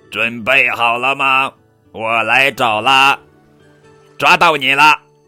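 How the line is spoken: Robot shouting. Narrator (Chinese): 机器皮特喊

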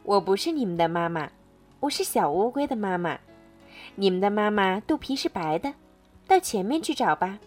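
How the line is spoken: Laughing. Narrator (Chinese): 大乌龟笑着说

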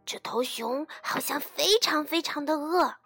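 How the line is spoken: Hushed, excited. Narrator (Chinese): 兔子压低了声音，激动地说

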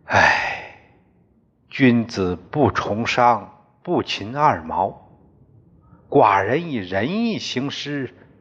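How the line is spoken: Sighing. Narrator (Chinese): 襄公听说后，他叹了口气

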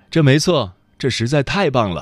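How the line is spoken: Laughing. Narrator (Chinese): 我笑了，说

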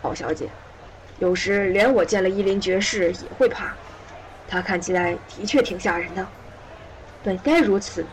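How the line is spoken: Gentle old man. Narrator (Chinese): 老人温柔地对三莎说

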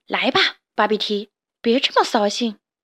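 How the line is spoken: Soft. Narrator (Chinese): 芭比提轻声地说

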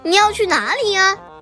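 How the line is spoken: Smiling question. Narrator (Chinese): 快乐先生笑着问他

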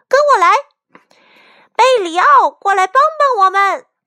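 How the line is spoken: Loud chicks shouting. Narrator (Chinese): 小鸡们大声喊

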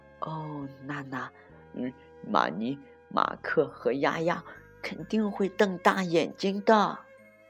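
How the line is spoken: Soft laughing. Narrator (Chinese): 波利小声笑着说

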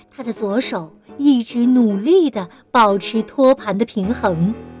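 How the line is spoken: Trembling child, low voice. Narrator (Chinese): 小雷蒙打着哆嗦，低声地说

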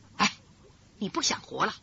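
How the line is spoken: Low voice. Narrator (Chinese): 魏银平低声说

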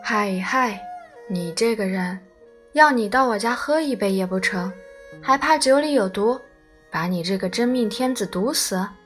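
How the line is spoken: Cheerful grinning. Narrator (Chinese): 祖父 笑嘻嘻说

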